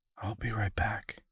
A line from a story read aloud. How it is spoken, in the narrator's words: whispered